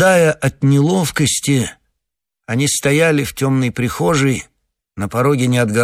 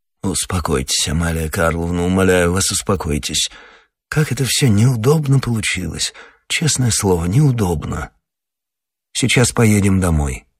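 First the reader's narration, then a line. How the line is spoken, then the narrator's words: Grumbled. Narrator (Russian): буркнул Александр Александрович, обращаясь к детям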